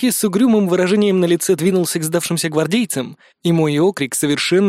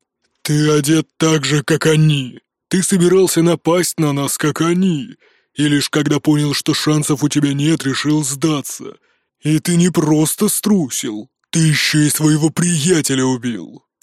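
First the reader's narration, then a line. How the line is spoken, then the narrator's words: Grumbling. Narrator (Russian): проворчал Нуки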